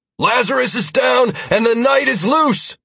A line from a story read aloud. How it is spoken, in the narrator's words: I shouted